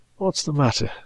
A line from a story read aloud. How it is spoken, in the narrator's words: said Wedderburn, feebly